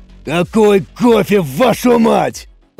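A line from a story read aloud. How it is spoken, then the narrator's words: Booming, in the room. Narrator (Russian): прогремел голос Самсона, но уже не в рации, а прямо в лаборатории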